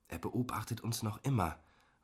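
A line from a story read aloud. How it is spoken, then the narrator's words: Murmured through barely moving lips. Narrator (German): raunte und versuchte dabei, meine Lippen nicht zu bewegen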